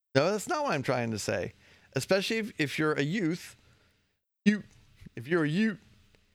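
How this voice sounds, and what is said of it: New York accent slipping out. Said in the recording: “New York accent coming out.”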